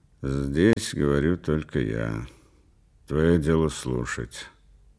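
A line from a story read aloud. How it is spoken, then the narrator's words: Dry and cold. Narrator (Russian): сказал он сухо и холодно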